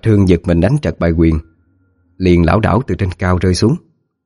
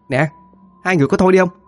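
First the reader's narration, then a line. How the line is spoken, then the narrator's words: Annoyed shout. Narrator (Vietnamese): Cô Tư bực mình la lên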